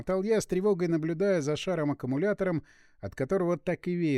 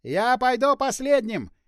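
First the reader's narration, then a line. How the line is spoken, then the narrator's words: Strained shout. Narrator (Russian): явно через силу прокричал он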